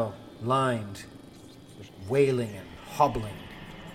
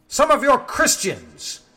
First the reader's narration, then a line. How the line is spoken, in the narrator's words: sneers